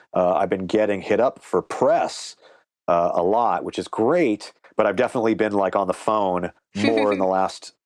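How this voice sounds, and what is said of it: Slightly hoarse voice. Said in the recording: “my voice is actually a little hoarse right now just because I've been talking more this week than I normally would”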